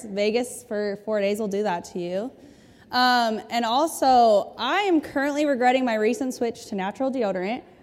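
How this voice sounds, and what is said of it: Slightly hoarse voice. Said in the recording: “my voice is feeling a little hoarse.”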